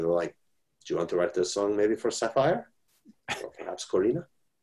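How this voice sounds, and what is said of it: Ricardo Montalban impression. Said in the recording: “doing a Ricardo Montalban impression”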